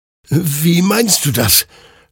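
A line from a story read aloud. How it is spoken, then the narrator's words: Confused stammering. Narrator (German): stammelte Hector verwirrt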